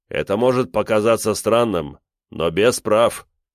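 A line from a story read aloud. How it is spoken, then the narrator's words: Deep bass voice. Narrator (Russian): пробасил маэстро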